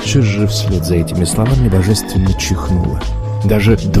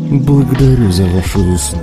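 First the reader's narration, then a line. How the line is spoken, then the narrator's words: Deep stony voice. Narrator (Russian): отозвалась она своим глубоким каменным голосом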